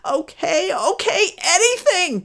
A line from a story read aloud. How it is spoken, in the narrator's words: gasped Poverty